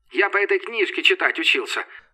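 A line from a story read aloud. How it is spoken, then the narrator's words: Snorting. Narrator (Russian): фыркнул цыган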